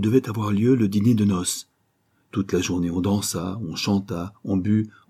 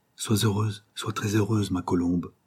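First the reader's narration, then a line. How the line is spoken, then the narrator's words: Tender murmur. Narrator (French): murmura-t-elle tendrement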